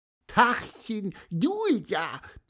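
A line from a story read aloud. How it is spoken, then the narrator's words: Squeaky piping voice. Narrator (German): piepste Pieper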